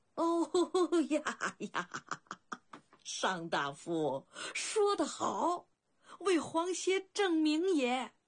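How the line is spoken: Sudden hearty laughter. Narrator (Chinese): 春申君顿时愣着，又突然大笑起来

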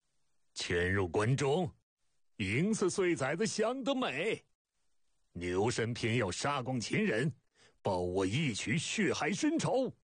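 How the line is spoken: Loud laughter. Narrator (Chinese): 大牛首仰天大笑

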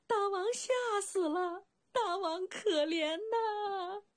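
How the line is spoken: Queen's wailing cry. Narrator (Chinese): 黑瘦的王后一声哭喊

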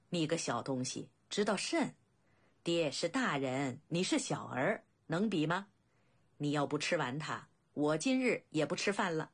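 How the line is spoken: Laughing. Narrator (Chinese): 景监笑道

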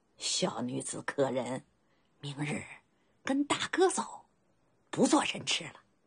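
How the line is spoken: Bearded man, chuckling, hushed. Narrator (Chinese): 络腮大胡须嘿嘿嘿笑着，压低声音道

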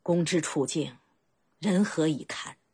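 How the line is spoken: Heavy sigh. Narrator (Chinese): 深重地叹息了一声

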